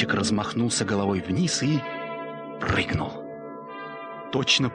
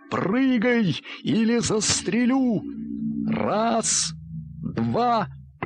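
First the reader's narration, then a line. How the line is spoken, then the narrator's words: Father shouting. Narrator (Russian): отец крикнул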